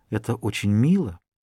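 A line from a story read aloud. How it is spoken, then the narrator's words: Whisper. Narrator (Russian): Она прошептала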